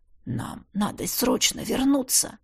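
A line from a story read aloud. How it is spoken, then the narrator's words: Whispered. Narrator (Russian): прошептал я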